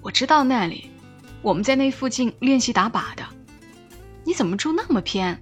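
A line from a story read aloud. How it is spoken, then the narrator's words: Laughing. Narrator (Chinese): 小警察笑着说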